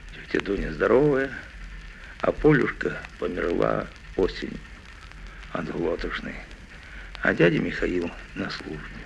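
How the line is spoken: Quiet answer, child. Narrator (Russian): Мишатка тихо ответил

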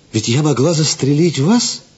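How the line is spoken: Exclaimed. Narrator (Russian): воскликнула она

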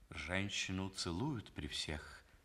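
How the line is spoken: Quiet, close to ear. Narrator (Russian): тихо сказал граф, нагнувшись ей на ухо

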